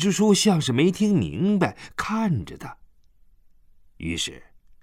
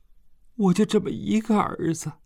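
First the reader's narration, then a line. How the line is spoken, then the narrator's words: Flushed, pleading. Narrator (Chinese): 他涨红着脸看着徐支书哀求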